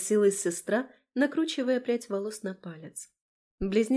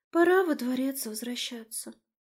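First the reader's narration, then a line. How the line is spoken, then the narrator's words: Wistful sighing girl. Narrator (Russian): тоскливо вздохнула смуглая девушка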